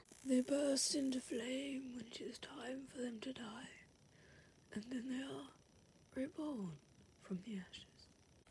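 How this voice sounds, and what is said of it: Imitates a wise old wizard's voice. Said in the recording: “my Dumbledore impression ... That was actually really good.”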